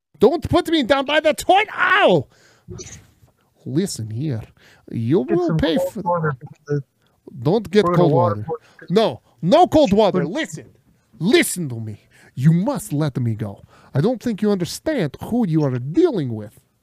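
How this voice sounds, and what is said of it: Put-on accent, hard to understand. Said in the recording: “I can't understand your accent. ... it is not very thick”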